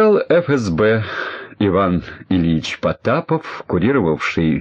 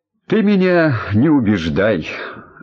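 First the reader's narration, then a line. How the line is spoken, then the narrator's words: Grumbling general. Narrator (Russian): ворчал генерал ФСБ Петров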